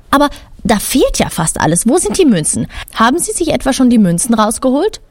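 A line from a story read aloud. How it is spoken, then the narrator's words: Angry. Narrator (German): Wütend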